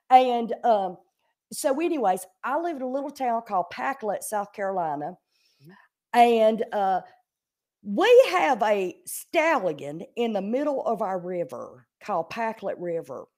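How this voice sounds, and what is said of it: South Carolina accent. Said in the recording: “I am from a small town in South Carolina ... My accent is truly how I talk ... This is truly how I talk”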